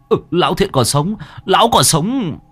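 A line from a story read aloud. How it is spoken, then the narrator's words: Reassuring loud shout. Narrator (Vietnamese): Ông hét lớn cho Đen biết để hắn có thể yên tâm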